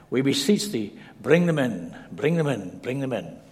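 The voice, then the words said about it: Lyrical put-on Scottish accent. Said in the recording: “in a very lyrical way ... in a good Scottish accent”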